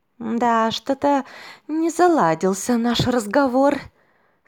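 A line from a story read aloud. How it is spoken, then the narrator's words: Sighing. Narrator (Russian): Смерть вздохнула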